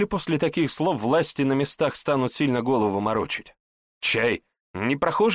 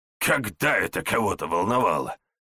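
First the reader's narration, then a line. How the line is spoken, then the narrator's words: Snort, less irritated. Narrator (Russian): Фыркнул Панкрат, но уже не так раздраженно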